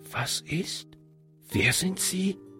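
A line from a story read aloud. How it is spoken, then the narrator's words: Whispered question. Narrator (German): fragte er flüsternd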